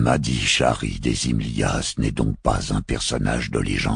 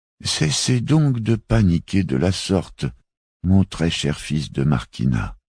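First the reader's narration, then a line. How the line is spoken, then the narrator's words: Sighing mufti. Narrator (French): soupira le moufti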